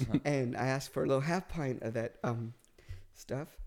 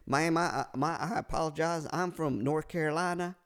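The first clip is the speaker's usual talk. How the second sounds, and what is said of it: Put-on Southern US accent. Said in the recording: “this is the shittiest South Carolina accent, Southern accent, but I do accents ... Probably more Texas ... That's pretty good.”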